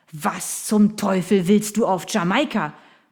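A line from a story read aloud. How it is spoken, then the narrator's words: Blustering. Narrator (German): polterte Sir William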